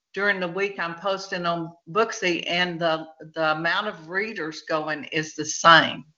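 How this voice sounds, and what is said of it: Texan accent. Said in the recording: “Where is your accent from? I love that accent. ... if anybody wants to learn Texican, they can come on and listen to”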